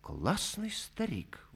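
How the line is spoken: Admiring whisper. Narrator (Russian): восхищенно шепнул кто-то

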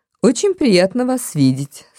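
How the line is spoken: Dry tone. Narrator (Russian): сухо произнесла миссис Робсон

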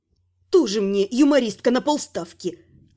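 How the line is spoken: Snapping back. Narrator (Russian): огрызнулась

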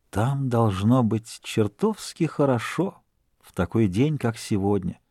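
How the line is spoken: Whisper. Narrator (Russian): Он прошептал

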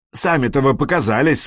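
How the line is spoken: Angry. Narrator (Russian): сказал Флори сердито

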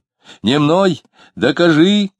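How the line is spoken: Shouting. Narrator (Russian): кричал Дронов

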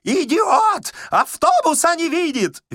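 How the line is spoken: Shrieking. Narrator (Russian): визжал Паниковский

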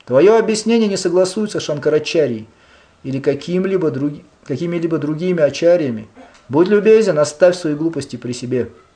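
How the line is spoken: Calmer, regaining composure. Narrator (Russian): Немного придя в себя, он продолжал более спокойно

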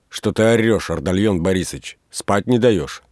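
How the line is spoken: Angry, just-woken question. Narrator (Russian): Варвара проснулась и сердито спросила

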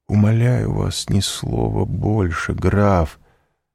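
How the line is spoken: Dejected, sinking voice. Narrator (Russian): сказал Морель упавшим голосом

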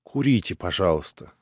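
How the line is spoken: Magnanimous yet crushed voice. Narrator (Russian): сказала она великодушным и вместе убитым голосом

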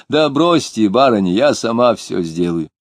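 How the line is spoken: Cheerful loud coaxing. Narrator (Russian): веселый голос громко уговаривал

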